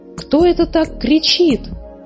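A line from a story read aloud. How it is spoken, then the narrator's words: Anxious exclamation. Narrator (Russian): взволнованно воскликнула муми-мама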